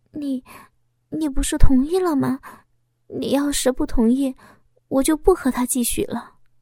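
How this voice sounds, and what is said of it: Quiet nervous stammering voice. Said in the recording (Chinese): “紧张了起来……小声的说道……心虚的”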